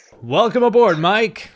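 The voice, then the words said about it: Put-on podcast host voice. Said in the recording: “This is where I put on my podcast voice. ... It's a good podcast voice.”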